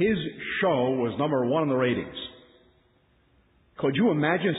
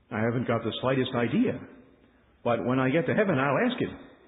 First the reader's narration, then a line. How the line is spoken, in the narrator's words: Bishop Sheen answered him calmly and said